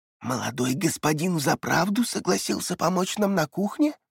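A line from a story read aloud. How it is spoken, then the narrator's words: Secretive whisper. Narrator (Russian): шепнула женщина на ухо дочери, чтобы никто не слышал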